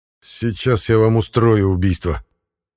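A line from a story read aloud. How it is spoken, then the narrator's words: Grumbling. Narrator (Russian): Проворчал я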